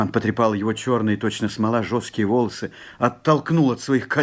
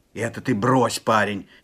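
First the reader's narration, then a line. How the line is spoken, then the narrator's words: Angry shout. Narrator (Russian): сердито вскричал Степан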